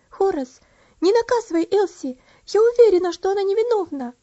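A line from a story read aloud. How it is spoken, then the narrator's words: Agitated exclamation. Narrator (Russian): взволнованно воскликнула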